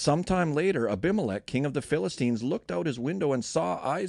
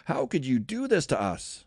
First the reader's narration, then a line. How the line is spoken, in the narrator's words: Abimelech exclaimed